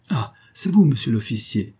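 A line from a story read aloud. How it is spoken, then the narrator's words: Exclamation. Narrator (French): s'écria-t-il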